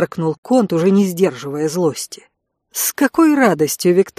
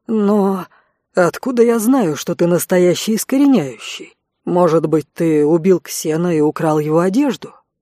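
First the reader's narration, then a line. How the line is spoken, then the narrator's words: Insinuating, gloating question. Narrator (Russian): Вкрадчиво поинтересовался Конт, предвкушая скорую расправу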